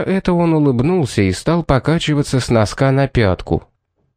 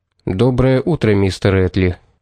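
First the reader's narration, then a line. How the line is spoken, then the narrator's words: Gloomy reply. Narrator (Russian): ответил мрачно Пит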